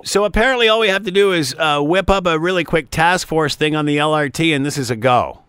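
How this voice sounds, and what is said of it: Sarcastic delivery. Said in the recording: “I'm being sarcastic. ... I know you are”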